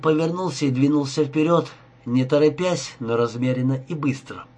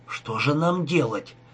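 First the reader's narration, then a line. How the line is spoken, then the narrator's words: Exhausted whisper. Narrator (Russian): прошептал Рика, совсем обессиленный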